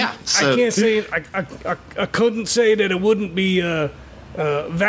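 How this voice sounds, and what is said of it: Usual voice. Nothing is said of it.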